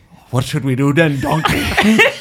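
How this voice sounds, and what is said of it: Shrek impression. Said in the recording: “do a Shrek impression.”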